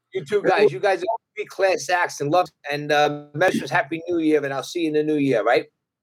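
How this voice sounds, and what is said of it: Brooklyn accent. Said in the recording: “your accent is music to my ears ... Brooklyn people”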